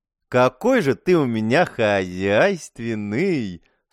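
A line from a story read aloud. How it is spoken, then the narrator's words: Purring praise from a woman. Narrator (Russian): С мурлыкающими интонациями в голосе похвалила красотка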